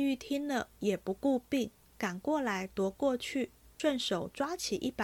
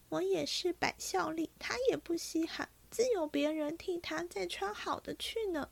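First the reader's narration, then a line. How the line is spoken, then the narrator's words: Crying. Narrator (Chinese): 黛玉哭道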